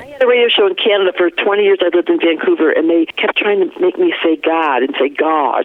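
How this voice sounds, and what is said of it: Flat Michigan accent. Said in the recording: “your A doesn't sound like Colorado ... I got that flat thing, that Michigan flat thing. I can't fix it.”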